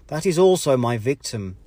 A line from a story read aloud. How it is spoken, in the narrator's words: he exclaimed